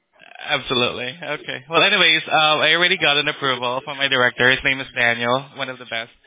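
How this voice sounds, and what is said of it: Filipino accent. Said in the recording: “You Filipino? ... I can tell from your accent.”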